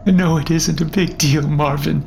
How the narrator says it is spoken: replied shakily

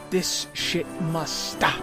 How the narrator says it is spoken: the lieutenant hissed

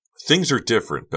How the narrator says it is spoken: Becca screamed, unable to hold her anger, her frustration back

